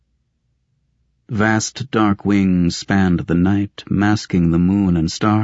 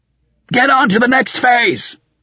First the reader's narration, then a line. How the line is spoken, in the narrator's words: shouted